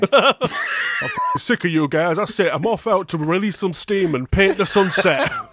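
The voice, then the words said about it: Put-on Yorkshire accent. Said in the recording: “some sort of poltergeist that you really are afraid of with a Yorkshire accent”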